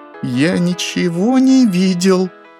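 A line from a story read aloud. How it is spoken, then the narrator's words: Whimpering, crying. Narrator (Russian): заскулил я, и по моим щекам потекли слезы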